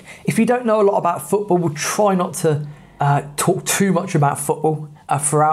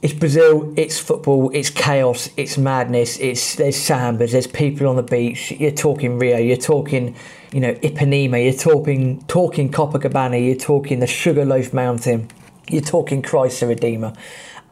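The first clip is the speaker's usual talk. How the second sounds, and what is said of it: Fast excited speech, coarse voice. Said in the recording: “You can tell the excitement's building up because I'm starting to speak faster. ... My voice is going more coarse as I speak here.”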